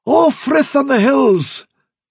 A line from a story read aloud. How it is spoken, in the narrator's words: cried